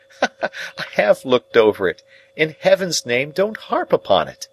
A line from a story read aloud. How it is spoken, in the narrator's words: Some sense of the grimly ludicrous moved me to a fretful laugh as I replied